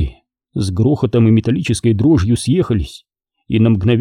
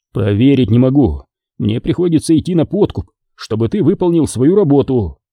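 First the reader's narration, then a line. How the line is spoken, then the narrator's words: Exclamation. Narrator (Russian): воскликнул Теллу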